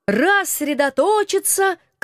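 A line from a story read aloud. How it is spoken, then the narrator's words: Shout. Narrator (Russian): крикнул мой муж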